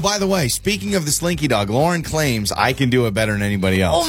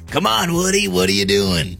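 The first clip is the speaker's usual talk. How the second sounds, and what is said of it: Slinky Dog character voice impression. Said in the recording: “does a great impression of the Slinky Dog”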